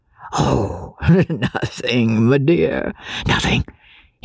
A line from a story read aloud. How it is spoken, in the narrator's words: muttered with a pleasant laugh